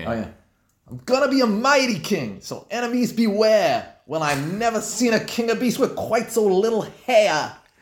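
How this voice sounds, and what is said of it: New York accent, singing. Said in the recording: “doing a New York accent singing "I Just Can't Wait to Be King"”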